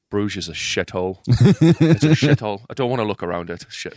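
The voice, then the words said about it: Weak attempt at Irish accent. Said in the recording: “I can't do an Irish accent ... I'm trying. I'm really trying. I need like a key phrase to get me into the accent.”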